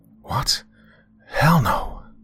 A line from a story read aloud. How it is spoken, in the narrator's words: hissed